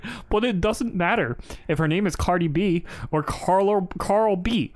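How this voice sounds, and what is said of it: Usual voice. Nothing is said of it.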